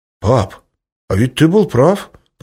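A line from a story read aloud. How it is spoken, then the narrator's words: Deep bass over phone. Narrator (Russian): пробасил в трубку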